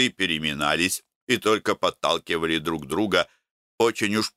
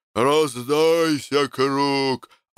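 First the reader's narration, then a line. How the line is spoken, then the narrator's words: Hoarse yelling. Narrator (Russian): орал охрипшим голосом Никитич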